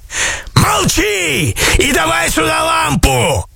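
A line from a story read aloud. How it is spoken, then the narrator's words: Greedy yelling sorcerer. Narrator (Russian): заорал колдун, жадно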